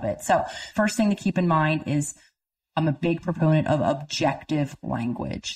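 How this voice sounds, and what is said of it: Speaks with a noticeable accent. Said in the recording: “I don't know if you can understand me with my accent.”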